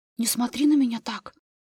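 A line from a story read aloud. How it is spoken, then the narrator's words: Agitated whisper. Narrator (Russian): Взволнованно прошептала Анжела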